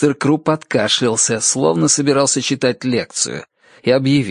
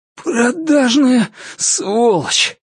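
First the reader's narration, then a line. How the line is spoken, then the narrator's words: Hoarse rasp. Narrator (Russian): прохрипел он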